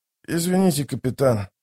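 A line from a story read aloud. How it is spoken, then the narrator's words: Rasped. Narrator (Russian): прохрипел он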